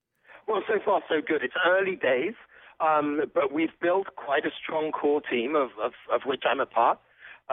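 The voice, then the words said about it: Impaired voice with intermittent coughing. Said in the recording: “I apologize for my voice and intermittent coughing in advance.”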